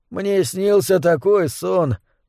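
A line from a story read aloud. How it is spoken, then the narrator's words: Mumbling. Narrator (Russian): пробормотал он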